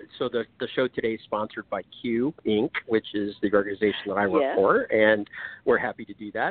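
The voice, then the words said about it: Announcer voice. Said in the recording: “the announcer voice.”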